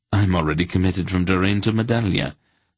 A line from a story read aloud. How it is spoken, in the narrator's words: Silk said quickly